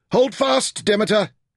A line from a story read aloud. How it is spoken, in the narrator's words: Taita shouted